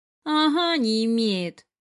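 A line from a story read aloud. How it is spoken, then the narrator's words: Snorting female retort. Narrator (Russian): фыркнула она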